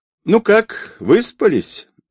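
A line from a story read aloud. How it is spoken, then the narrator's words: Man's forced cheerful question. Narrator (Russian): неестественно весело спросил мужчина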